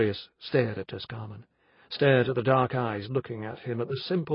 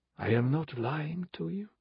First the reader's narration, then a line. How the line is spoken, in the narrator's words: said Descarmen gently